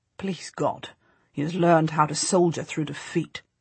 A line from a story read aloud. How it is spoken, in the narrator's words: my husband says grimly